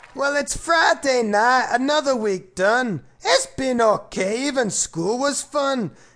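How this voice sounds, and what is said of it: Put-on Scottish accent. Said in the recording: “I like Scottish accents. So I thought that's how I'd speak. It's a lot more interesting than me normal voice... his magnificent Scottish accent”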